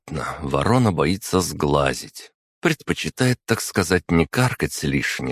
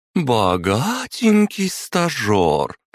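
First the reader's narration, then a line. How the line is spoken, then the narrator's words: Drawling. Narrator (Russian): протянула Мария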